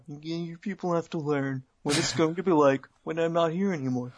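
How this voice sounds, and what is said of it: Imitates another person's voice. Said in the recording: “doing the Triple H voice, not the Trump voice, but they're very similar”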